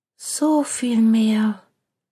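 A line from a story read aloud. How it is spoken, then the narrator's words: Sighing. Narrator (German): es klang wie ein Seufzer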